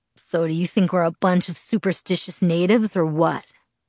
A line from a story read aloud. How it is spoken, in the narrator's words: He asked in a playful tone, but with a hint of worry